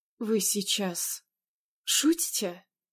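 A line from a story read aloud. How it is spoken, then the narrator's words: Hoarse, strained utterance. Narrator (Russian): смогла хрипло выдавить из себя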